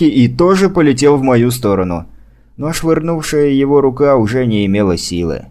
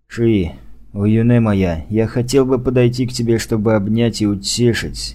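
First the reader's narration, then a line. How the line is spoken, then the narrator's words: Awkward mutter. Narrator (Russian): неловко пробормотал я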